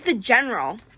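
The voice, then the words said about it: French accent. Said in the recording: “I'd said it with a French accent.”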